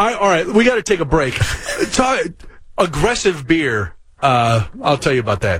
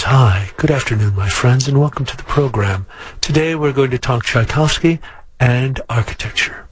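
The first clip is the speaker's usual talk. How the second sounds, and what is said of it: Calm whispered NPR-style voice. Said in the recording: “I'm going to whisper now, because I've been told my voice is very loud ... spoke calmly and in a whisper ... like an NPR show”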